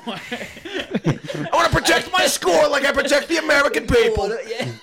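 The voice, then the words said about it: Donald Trump impression. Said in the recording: “the old Trump accent”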